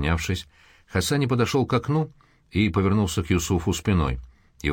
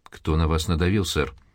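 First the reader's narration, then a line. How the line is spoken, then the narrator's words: Calm question. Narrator (Russian): спокойно спросил он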